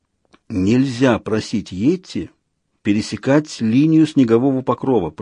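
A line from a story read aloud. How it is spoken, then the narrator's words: Whisper. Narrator (Russian): прошептал Людзе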